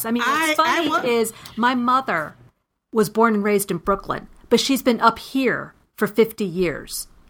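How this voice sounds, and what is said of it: New York accent. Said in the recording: “you have a New York accent for sure.”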